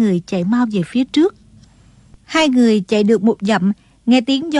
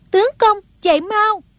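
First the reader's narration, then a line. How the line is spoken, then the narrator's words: Urgent cry. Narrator (Vietnamese): Sông Nhi chỉ cho là Di Tiểu Bảo đã giết chết tên gian tặc này, kêu lên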